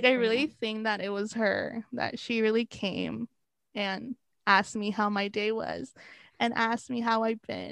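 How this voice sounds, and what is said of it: Shaky, emotional voice. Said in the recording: “my voice is a little shaky”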